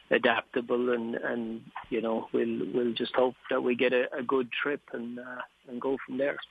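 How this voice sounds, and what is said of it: Irish accent. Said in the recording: “that's a bit of an Irish term ... It won't sound as good coming from me as it does from you, though. I don't have the right accent.”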